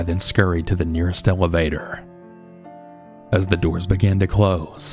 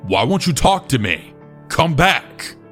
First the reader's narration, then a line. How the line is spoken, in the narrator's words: Ian shouted